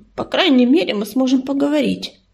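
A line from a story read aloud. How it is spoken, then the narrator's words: Grumbling mutter. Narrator (Russian): буркнула Рыжинка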